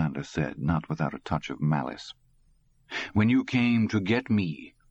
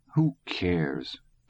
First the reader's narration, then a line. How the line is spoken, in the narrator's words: Todd said, and shrugged sullenly